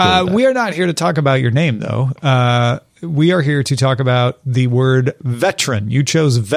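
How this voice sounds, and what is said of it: Usual voice. Nothing is said of it.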